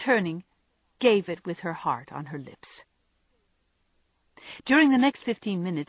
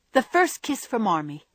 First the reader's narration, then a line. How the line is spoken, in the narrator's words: Meg cried